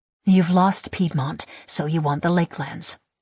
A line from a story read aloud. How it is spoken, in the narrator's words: I mutter